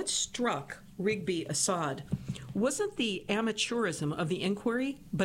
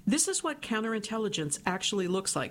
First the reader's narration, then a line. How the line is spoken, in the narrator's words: she said